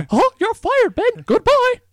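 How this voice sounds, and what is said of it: Bad Mickey Mouse impression. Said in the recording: “do a horrible Mickey impression”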